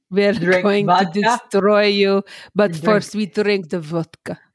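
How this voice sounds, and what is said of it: Put-on Russian accent. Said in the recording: “a really good Russian accent”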